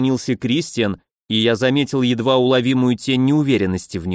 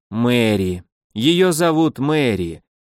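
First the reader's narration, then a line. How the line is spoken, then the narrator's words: Heavy, resigned exhale. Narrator (Russian): тяжело выдохнул темноволосый, поняв, что она от него так просто не отстанет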